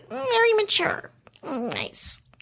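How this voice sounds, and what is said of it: Pissed-off kitty Megan Hauserman impression. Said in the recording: “like a little like pissed off kitty ... my Megan impression”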